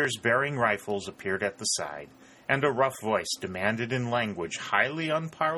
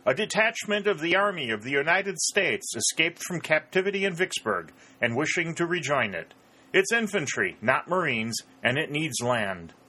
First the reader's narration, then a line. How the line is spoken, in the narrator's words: called out